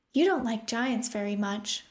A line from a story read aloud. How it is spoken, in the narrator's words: Opal said